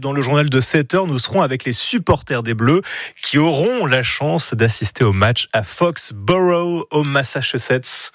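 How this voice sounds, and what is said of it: Noticeable regional accent. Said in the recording (French): “Ça, c'est de l'accent ... j'adore votre accent”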